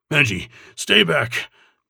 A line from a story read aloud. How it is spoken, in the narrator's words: Belgrave commanded, but his voice sounded strangled